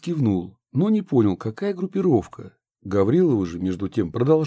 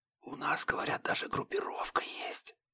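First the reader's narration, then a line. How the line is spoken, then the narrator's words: Woman's whisper. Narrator (Russian): прошептала Гаврилова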